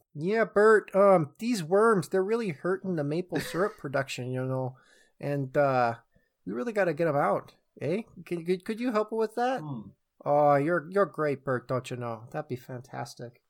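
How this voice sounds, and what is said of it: Put-on Canadian accent. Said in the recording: “That was my Canada impression.”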